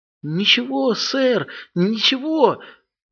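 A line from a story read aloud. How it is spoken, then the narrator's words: Timid, frightened assurance. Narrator (Russian): робко заверил Тримбл, похолодев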